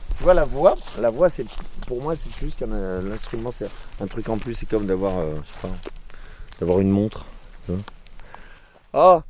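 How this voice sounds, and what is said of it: Hoarse, broken voice. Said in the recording (French): “Ma voix est cassée là, c'est atroce ... j'ai la voix cassée”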